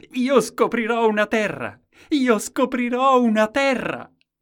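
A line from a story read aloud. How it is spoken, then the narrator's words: Shouted. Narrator (Italian): gridò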